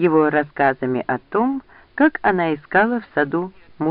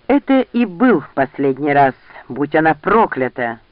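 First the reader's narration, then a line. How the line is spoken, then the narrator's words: Roaring. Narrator (Russian): взревел Ранд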